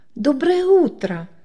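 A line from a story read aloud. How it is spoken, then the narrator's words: Greeting. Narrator (Russian): поздоровалась Лида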